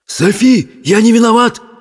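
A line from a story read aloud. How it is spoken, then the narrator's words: Agitated crackling voice. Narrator (Russian): твердило оно взволнованным трескучим голосом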